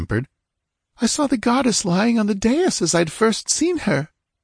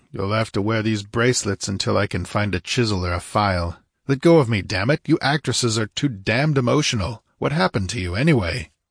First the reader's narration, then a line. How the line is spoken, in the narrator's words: grunting